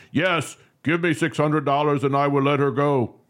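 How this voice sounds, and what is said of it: Generic put-on foreign accent. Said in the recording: “I don't know what accent that was... That was a generic just accent.”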